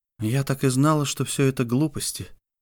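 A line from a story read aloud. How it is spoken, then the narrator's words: Whispered in ear. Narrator (Russian): прошептала на ухо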